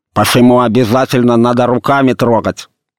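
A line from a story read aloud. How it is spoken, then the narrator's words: Lisping shout. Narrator (Russian): закричал он шепеляво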